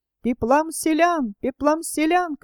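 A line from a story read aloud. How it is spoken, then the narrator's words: Riders shouting together. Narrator (Russian): кричали всадники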